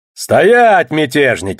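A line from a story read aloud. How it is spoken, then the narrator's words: Roar. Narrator (Russian): взревел я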